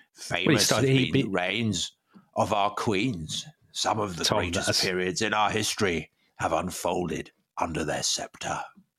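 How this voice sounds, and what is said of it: Imitates another person's voice. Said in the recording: “you took over Churchill yourself ... a brilliant Churchill impersonator”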